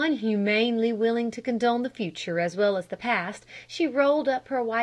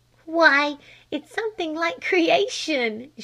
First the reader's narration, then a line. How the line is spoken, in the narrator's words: she giggled